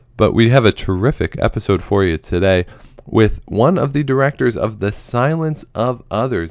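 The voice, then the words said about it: Slightly hoarse voice. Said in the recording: “my voice being a little bit hoarse ... my voice has just been a little off the past few days”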